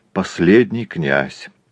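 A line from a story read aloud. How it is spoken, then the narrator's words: Sighing. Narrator (Russian): вздохнув, ответил Иона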